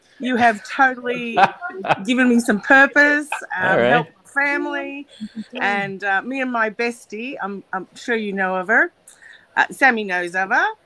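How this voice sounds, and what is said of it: Australian accent. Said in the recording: “You got an accent ... on you. ... Australia.”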